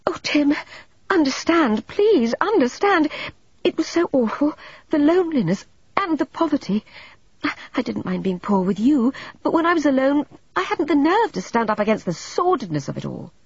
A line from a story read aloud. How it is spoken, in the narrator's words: Deirdre cried out